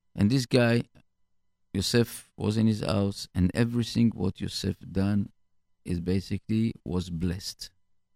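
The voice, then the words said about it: Foreign accent in English. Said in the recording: “sorry about my accent”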